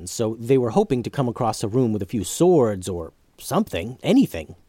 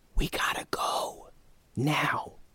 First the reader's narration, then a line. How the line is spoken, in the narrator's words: whispered